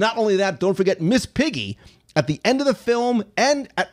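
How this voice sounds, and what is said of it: Usual voice. Nothing is said of it.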